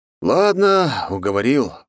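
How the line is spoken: Sighing. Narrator (Russian): вздохнул я

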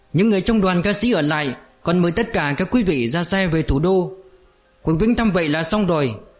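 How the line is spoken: Old man shouting. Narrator (Vietnamese): Lão trưởng đoàn ... chạy ra giữa sân la lên

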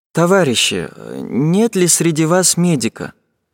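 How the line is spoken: Quiet question, young woman. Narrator (Russian): спрашивала тихо девушка

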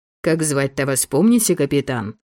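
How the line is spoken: Snorting. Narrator (Russian): хмыкнул Львов

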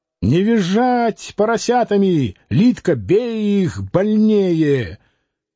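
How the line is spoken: Desperate shouting. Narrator (Russian): Борис отчаянно кричал

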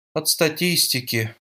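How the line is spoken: Repeating, then sighing. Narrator (Russian): повторила за ней Джулия, потом вздохнула

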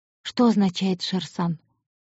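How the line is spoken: Quiet girl's question. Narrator (Russian): тихо спросила девушка

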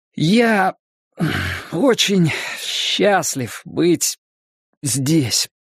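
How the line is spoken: Trembling voice. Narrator (Russian): дрожащим голосом начал Брэд

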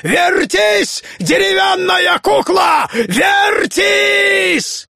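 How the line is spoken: Piercing shriek, wild laughter. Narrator (Russian): изныл, как затравленный зверь, страшно захохотав, закричал пронзительным голосом

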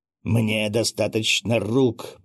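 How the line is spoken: Growled. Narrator (Russian): прорычал он

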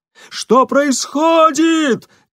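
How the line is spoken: Shout. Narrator (Russian): крикнул он

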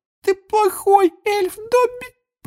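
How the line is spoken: Tearful moaning. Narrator (Russian): простонала Винки, и слезы опять покатились из ее глаз

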